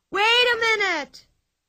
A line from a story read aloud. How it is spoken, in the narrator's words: shrieked Pippi after her